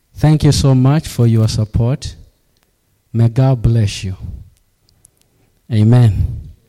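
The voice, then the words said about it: Accent that mixes R and L. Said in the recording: “you may have a problem with an accent whereby I'm speaking ... you'll be able to pick out my accent ... Sometimes I mix R and L”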